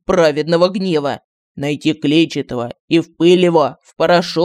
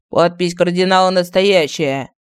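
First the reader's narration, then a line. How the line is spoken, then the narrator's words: Loud announcement. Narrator (Russian): Громко сообщил начальник филиала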